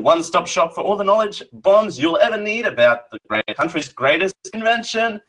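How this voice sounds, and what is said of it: Australian accent. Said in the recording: “I'm Australian. ... it's the accent.”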